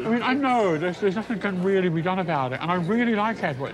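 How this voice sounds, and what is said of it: Non-American English accent. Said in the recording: “I love your accent ... You Yanks love my mellifluous lyrical”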